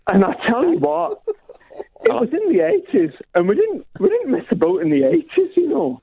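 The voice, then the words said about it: Put-on accent. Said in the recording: “Keep the accent. Work on the accent.”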